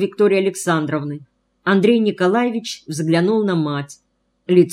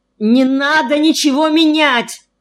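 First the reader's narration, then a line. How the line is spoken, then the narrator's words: Almost shouting. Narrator (Russian): почти закричал Андрей Николаевич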